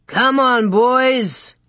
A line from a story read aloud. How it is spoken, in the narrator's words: shouted